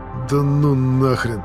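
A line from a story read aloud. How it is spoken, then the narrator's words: Groaning. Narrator (Russian): Застонал подкидыш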